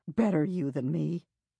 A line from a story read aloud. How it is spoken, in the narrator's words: I could swear I heard her murmur